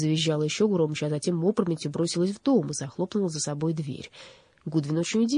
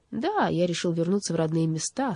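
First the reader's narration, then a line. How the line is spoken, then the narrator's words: Calm. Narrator (Russian): спокойно кивнул Вардал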